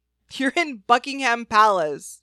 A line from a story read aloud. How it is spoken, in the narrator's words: Penthesilea laughed